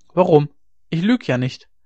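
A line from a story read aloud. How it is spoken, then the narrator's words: Calling out. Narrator (German): rief sie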